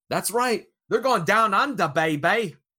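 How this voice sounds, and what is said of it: Bad put-on Australian accent. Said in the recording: “that was a terrible Australian accent. I should be slapped for that”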